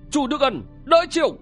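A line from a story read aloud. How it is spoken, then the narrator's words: Shouting. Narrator (Vietnamese): người đó quát lên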